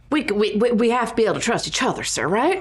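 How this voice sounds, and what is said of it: Odd put-on character accent. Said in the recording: “I don't know what this accent's doing.”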